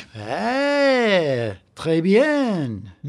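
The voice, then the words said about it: Over-the-top fake French accent. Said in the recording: “why this accent? ... this is not French. This is an outrageous accent, probably from Monty Python. ... That's the Pink Panther.”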